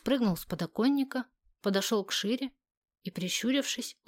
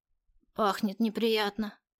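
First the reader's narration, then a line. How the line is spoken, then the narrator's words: Snort. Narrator (Russian): фыркнул он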